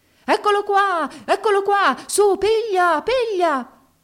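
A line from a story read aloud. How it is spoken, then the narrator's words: Shouting at full voice. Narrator (Italian): Egli gridava allora a tutta gola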